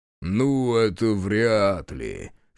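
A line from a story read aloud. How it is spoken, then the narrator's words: Chuckling. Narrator (Russian): хохотнул Дед Мороз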